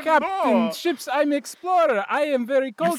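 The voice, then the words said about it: Put-on Russian accent. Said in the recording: “You sound very Russian.”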